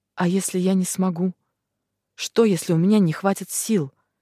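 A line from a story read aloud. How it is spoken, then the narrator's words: Trembling question. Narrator (Russian): дрожащим голосом спрашиваю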